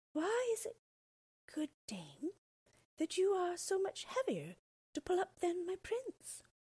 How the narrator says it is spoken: Rapunzel, who could think of nothing but her prince, said dreamily

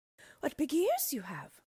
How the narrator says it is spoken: she exclaimed wonderingly

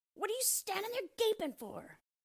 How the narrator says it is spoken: screamed the dwarf, and his ashen gray face became scarlet with rage

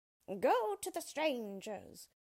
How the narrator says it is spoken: cried the witch

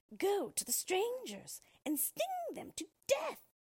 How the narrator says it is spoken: she cried

